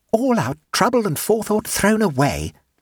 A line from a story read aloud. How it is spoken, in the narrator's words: said Suzanne sulkily